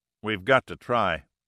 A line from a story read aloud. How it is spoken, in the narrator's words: Pitt said firmly